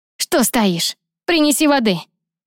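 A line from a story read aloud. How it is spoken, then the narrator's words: Shout. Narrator (Russian): крикнула Ярна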